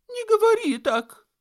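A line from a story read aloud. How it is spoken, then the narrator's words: Old man exclaiming. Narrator (Russian): воскликнул старик, зажмурившись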